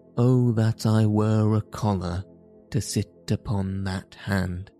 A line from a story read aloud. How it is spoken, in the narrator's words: sighed John, adding argumentatively